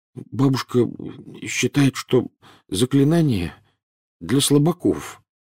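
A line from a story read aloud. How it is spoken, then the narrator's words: Mumbled. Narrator (Russian): промямлил Невилл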